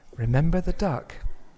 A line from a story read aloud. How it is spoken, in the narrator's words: his sister would whisper to him